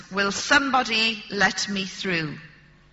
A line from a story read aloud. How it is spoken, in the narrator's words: said in a very loud voice